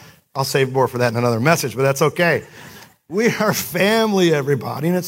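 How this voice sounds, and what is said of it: Usual voice. Nothing is said of it.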